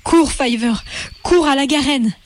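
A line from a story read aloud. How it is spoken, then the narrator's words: Exclaimed. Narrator (French): s'écria Hazel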